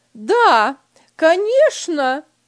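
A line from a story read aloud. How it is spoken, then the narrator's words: Wife shouting after. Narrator (Russian): крикнула ему вслед жена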